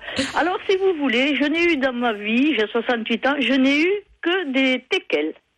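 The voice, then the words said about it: Regional French accent from Tarn-et-Garonne. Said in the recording (French): “vous avez l'accent ... Ça ne sent pas du tout à votre accent”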